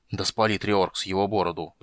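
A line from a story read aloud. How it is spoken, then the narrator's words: Muttered. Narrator (Russian): пробормотал он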